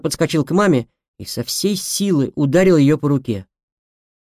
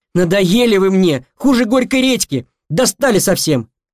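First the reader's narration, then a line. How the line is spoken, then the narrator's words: Exasperated shout. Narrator (Russian): Тут я не выдержал и крикнул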